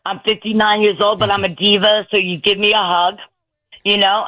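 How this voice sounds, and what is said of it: New York accent. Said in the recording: “That's why I have a Brooklyn accent ... to me, it's a New York accent”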